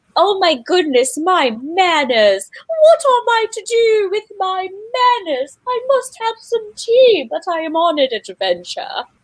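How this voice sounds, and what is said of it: Posh hoity-toity British character voice. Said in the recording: “a hoity-toity British man in tight pants ... That's my Lawrence impression.”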